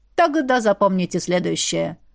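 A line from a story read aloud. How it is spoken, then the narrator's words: Grumble. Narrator (Russian): пробурчал мистер Пеппер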